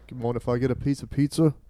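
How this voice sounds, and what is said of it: English accent drifting Australian. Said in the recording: “That's my good English accent. ... started off Australian and then went right to like white trash”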